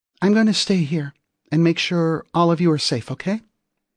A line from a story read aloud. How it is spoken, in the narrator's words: Rachel asked, trying to keep her voice light